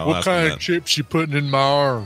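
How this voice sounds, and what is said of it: Put-on Southern American accent. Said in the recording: “why all of a sudden do I have a southern accent?”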